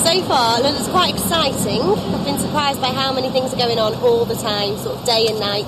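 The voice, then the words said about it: Northwest English accent. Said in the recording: “She's got that sort of northwest accent going on because she's from Blackpool, which is up on the northwest coast.”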